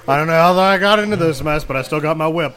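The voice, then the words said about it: Old Indiana Jones impression. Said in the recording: “I don't know why I gave him that accent.”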